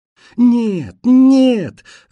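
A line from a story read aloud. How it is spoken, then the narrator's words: Sobbing shouts. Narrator (Russian): рыдая, кричали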